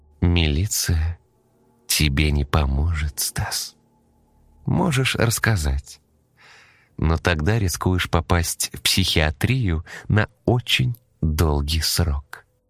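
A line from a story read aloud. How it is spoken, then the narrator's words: Slow, measured woman. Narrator (Russian): медленно произнесла рыжая, чеканя каждое слово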